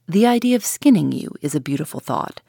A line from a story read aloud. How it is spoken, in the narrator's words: said Mr